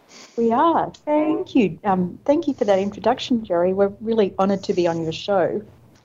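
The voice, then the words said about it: Faint Australian accent. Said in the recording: “I hear a faint accent, Australian perhaps? ... I am Australian”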